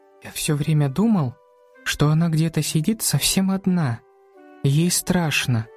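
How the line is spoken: Almost whispering. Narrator (Russian): почти шепотом сказал Макс

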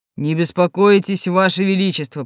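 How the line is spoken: Yeti's deep bass voice. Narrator (Russian): произнес глубоким басом снежный человек

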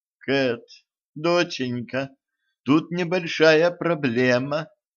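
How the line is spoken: Timid. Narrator (Russian): робко сказала она

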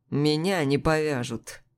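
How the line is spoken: Lazy reply. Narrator (Russian): ответил лениво

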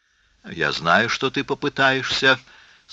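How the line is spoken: Sad. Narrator (Russian): сказал Старк печально

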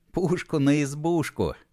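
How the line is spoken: Fake chuckle. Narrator (Russian): фальшиво хохотнул Матушкин

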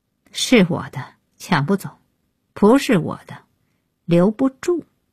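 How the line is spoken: Cold, interrupting. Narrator (Chinese): 安夜开口，冷冷打断

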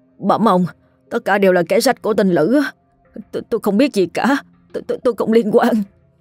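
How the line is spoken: Trembling pleading voice. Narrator (Vietnamese): Đồng run rẩy nói

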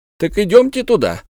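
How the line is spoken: Exclaiming. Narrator (Russian): воскликнул Пальмирен Розет

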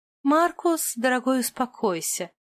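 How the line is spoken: Sigh. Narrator (Russian): вздохнула Друзила

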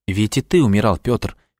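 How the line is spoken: Soft, gentle. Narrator (Russian): мягко сказал он

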